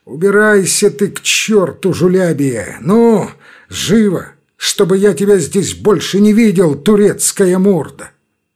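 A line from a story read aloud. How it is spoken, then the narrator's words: Contemptuous drawl, then furious shout. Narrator (Russian): протянул Грузов презрительно и вдруг с мгновенно озверевшим лицом он крикнул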